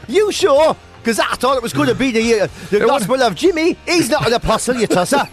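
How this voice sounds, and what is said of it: Newcastle accent. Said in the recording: “my Newcastle accent”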